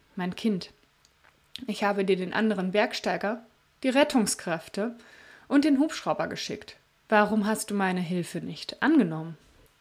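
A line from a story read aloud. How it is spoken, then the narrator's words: Gentle. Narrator (German): Gott schaute ihn sanft an und sagte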